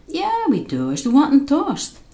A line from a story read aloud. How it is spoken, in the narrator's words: mother asked with a laugh